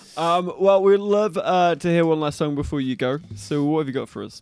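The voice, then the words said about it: Regional English accent. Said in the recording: “You still got the accent, brother.”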